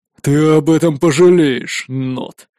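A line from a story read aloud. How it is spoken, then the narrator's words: Grinding through teeth. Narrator (Russian): проскрипел зубами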